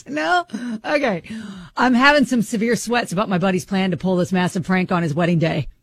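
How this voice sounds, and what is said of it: Put-on dude voice. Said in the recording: “I'll put my dude voice on ... in a dude voice”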